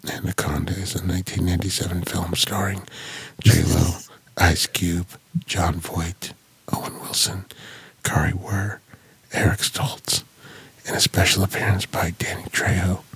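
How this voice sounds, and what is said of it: Soft close-mic ASMR voice. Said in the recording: “I do have a very ASMR voice. ... I'm going to do my ASMR voice. ... this is the voice they use ... they get real close to the mic”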